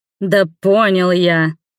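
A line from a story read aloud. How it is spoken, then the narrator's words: Growled. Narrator (Russian): рыкнул вальмондец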